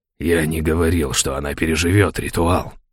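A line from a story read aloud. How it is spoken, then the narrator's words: Hiss. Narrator (Russian): зашипел Каин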